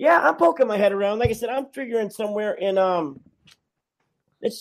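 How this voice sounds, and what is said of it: Usual voice. Nothing is said of it.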